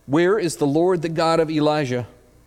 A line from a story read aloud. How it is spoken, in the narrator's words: He cried out